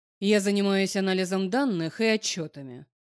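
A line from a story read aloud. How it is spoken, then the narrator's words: Dry, cold. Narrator (Russian): сухим и холодным тоном ответил Алекс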